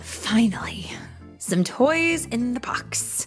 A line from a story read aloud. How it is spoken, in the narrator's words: sighed Spencer's mom